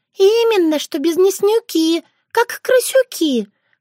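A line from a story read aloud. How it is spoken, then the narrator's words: Sighing. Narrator (Russian): вздохнула Шушана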